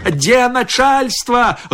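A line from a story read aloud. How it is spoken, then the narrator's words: Menacing shout. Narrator (Belarusian): грозна крыкнуў ён нам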